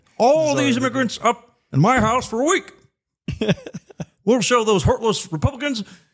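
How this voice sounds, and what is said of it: Imitates another person's voice, Kermit-like. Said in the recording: “impersonation ... a blend of Obama and like Kermit in a way ... my Obama impression ... Maybe a little Jordan Peterson as well”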